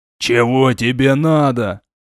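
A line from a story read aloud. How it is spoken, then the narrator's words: Thug's growl. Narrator (Russian): Прорычал мордоворот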